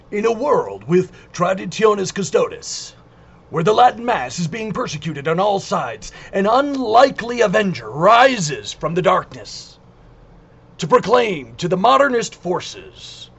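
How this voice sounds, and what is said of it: Hollywood movie trailer announcer voice. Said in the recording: “my Hollywood movie announcer voice”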